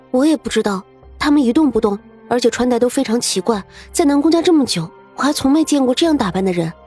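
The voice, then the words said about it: Quiet, hushed speaking voice. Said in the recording (Chinese): “下意识的小声开口回答”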